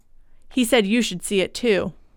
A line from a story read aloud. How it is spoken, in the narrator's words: in a low voice